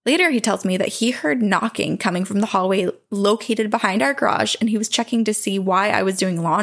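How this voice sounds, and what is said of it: Usual voice. Nothing is said of it.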